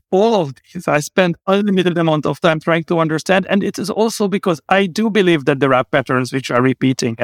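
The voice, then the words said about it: Hungarian accent in English. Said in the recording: “I come from a very small country, hence the terrible accent ... Hungary.”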